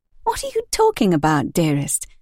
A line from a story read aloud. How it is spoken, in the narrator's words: Demelza asked, in her sweet voice